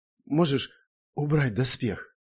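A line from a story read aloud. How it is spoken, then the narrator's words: Hoarse, lost voice. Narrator (Russian): хрипло и каким-то потерянным голосом произнесла Эльза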